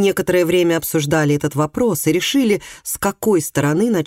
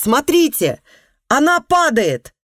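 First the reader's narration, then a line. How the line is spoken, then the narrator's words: Sudden shout. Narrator (Russian): Внезапно один из батраков закричал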